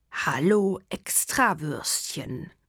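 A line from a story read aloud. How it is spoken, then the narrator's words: Hissing. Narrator (German): zischelt Dogur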